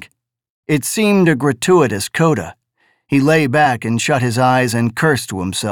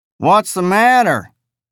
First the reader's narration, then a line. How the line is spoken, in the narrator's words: the Hebe driver in his drawly, jejune voice inquired